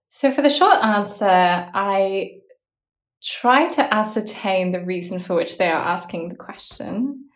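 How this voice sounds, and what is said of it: Australian accent. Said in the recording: “If I feel like it's because of my accent, then the short answer is that I'm Australian.”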